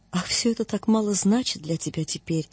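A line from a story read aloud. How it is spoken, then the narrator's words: Quiet. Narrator (Russian): говорила она тихо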